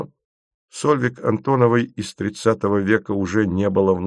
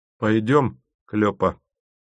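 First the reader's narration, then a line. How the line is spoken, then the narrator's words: Glum sighing. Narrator (Russian): сказал Тимофеев, уныло вздыхая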